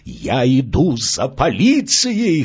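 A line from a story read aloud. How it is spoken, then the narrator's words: Hoarse shout. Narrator (Russian): хрипло выкрикнул он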